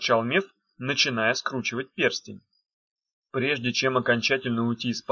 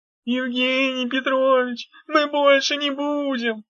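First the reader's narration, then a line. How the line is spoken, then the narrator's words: Giggling. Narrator (Russian): Дав хихикнула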